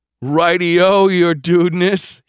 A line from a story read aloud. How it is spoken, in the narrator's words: he laughed